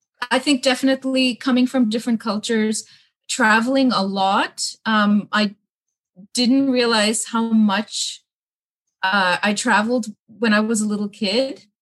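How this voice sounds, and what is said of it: Slightly unusual mixed accent. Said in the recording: “my accent's a little strange”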